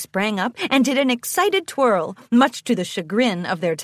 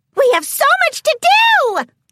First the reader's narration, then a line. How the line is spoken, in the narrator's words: squealed